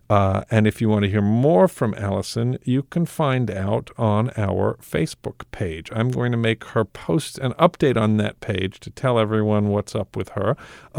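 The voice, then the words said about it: Creaky vocal fry. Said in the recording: “a snide comment about my vocal fry”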